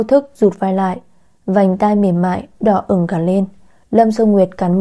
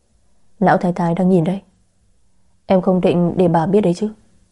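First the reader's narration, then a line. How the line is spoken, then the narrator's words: Soft, close whisper. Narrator (Vietnamese): anh khẽ nói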